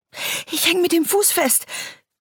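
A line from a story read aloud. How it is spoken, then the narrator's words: Panting. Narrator (German): keuchte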